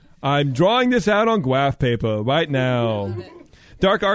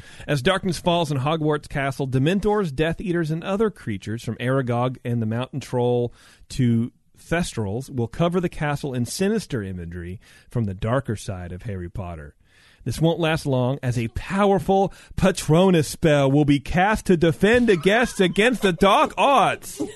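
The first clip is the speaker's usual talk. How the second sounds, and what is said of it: Nerdy put-on voice. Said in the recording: “it just kind of got real nerdy ... That's my nerd voice.”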